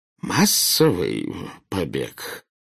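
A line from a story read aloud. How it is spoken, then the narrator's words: Hoarse questioning voice. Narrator (Russian): севшим голосом переспросил премьер-министр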